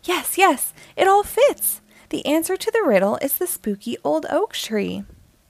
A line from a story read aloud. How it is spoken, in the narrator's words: With a triumphant tone, he exclaimed